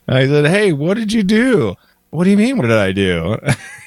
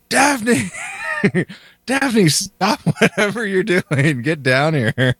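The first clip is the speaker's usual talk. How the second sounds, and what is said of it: Screaming loudly. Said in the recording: “I'm screaming upstairs”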